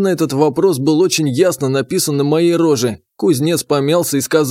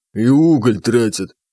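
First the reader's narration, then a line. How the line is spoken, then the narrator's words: Deep bass voice, blacksmith. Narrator (Russian): басом добавил кузнец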